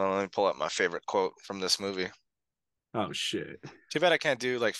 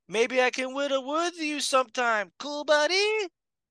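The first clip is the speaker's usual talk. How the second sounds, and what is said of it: Imitates another person's voice. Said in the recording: “your best Polly Shore impression”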